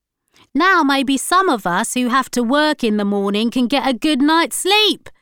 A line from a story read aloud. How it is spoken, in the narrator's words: shouted a neighbour